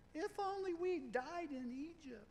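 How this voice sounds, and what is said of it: Whiny voice. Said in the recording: “That's my whiny voice.”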